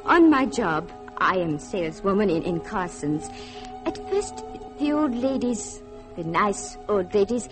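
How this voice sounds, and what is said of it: Austrian-accented English. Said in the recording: “they hear my accent. They ask, where are you from? Austria.”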